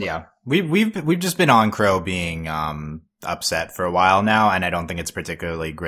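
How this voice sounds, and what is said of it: Usual voice. Nothing is said of it.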